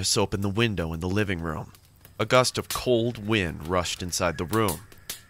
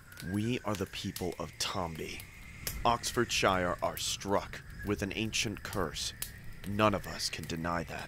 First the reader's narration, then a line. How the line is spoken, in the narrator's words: Morris said in a low voice